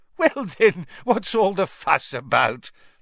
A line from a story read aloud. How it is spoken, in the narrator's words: laughed Fudge airily